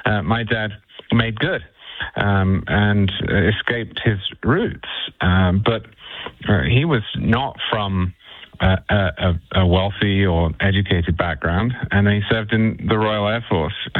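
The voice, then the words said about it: British accent, not working class. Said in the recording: “Now, I'm not, as you can hear by my accent.”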